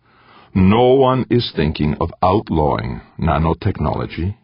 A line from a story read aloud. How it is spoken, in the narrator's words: he said flatly